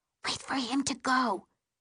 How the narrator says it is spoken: she whispers

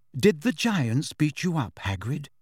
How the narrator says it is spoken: asked Hermione quietly

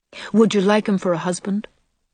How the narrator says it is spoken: asked Jane calmly

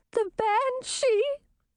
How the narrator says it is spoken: Chartreuse cried

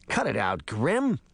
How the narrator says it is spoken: Toby cried from across the room

